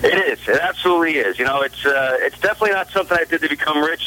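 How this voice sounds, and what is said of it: New York accent. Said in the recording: “You said the Bronx just brings me back home with that New York accent.”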